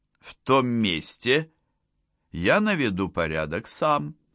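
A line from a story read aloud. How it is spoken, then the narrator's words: Gentle, affectionate. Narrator (Russian): ласково заговорил Франк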